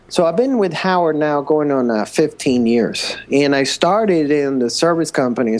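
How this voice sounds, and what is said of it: Colombian accent. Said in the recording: “I originally come from Colombia. So if you can hear my accent, that's where that comes from.”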